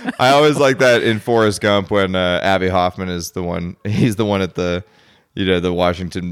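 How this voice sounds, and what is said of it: Usual voice. Nothing is said of it.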